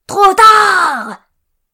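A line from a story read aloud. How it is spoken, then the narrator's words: Yelled. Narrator (French): hurla Monsieur Coruscant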